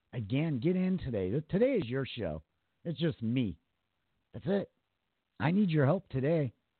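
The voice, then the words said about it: Slightly raspy voice. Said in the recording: “my voice is a little more raspy today than it normally is”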